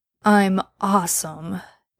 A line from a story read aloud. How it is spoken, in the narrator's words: Dean argued sleepily